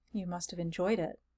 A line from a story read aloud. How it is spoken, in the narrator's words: I murmured, feeling the stir of sympathetic emotion